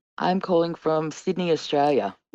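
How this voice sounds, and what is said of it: Australian accent. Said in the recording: “I love your accent so much. It's the best.”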